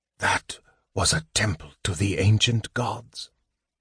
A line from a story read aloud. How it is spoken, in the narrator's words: Raistlin said, more to himself than anyone else, his soft whisper